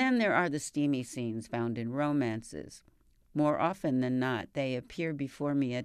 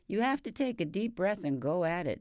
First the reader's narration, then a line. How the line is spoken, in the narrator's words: he chuckles